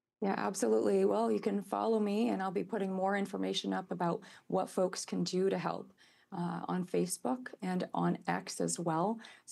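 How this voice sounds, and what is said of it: Slightly scratchy voice. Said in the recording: “my voice is a little scratchy. I've been feeling a little under the weather.”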